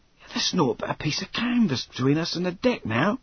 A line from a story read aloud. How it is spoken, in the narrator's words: he whispered triumphantly